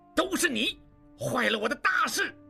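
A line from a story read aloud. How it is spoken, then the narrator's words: Furious roar. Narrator (Chinese): 望柏大怒，对望石吼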